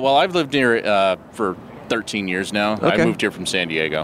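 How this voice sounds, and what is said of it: Powerful, smooth, commanding radio voice. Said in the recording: “you have a great radio voice ... it sounds good. It's a very powerful, smooth, commanding, like smooth butter. Voice. It's buttery.”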